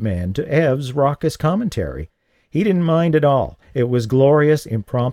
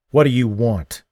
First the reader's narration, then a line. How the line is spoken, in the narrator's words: Lee snarled